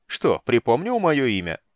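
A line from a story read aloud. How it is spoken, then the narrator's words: Mocking, sly. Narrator (Russian): насмешливо и хитро прищурился гном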